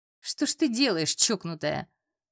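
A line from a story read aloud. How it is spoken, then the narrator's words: Laughing, not angry. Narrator (Russian): А он не злился, смеялся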